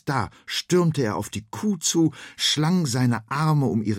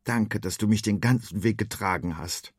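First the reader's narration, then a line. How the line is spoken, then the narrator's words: Plain. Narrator (German): sagte Freddy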